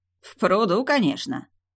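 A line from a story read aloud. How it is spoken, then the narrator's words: Snorted. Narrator (Russian): она снова хмыкнула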